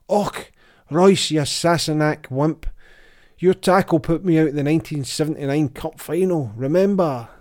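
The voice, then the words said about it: Put-on Scottish accent. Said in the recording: “starts talking over the speakers in a Scottish accent”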